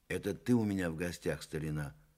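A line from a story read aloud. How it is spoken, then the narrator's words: Sad. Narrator (Russian): грустно сказал Иван Николаевич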